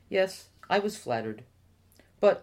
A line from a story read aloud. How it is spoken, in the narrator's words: Sadiq said